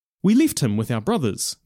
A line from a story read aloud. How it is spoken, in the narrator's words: they said quickly, like people who have been expecting a question and have an answer in their minds at all times